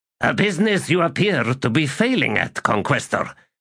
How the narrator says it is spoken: snapped Rava

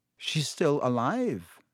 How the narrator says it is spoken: said Riddle

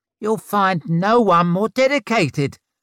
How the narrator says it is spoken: spluttered

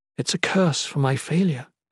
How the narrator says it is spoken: the Shalane mumbled

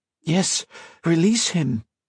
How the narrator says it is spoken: Colette pleaded

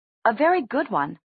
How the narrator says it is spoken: snapped Amethyst, who seemed to believe in Luke's plan even more than he did

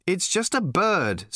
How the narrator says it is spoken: said Arthur impatiently

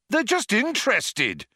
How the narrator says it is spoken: shouted Zaphod

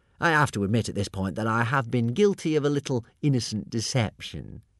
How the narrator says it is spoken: said Alvin

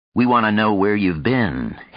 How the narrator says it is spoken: Houston said evenly

